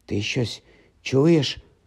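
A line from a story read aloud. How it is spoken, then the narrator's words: Whisper. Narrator (Ukrainian): прошепотів Рон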